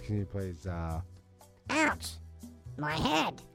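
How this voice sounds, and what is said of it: Silly character voice. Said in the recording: “Is that your bottle voice? ... That's my bottle voice.”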